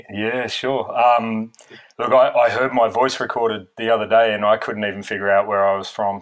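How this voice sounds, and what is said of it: Non-Irish, Australian-origin accent. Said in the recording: “that accent is not Irish ... I guess I'm originally born in Australia”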